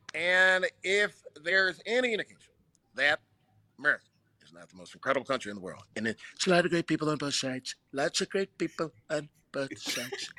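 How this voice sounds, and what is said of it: Imitates another person's voice. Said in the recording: “I'm literally doing the verses of impersonation. The verses is gonna be Barack Obama and Donald Trump.”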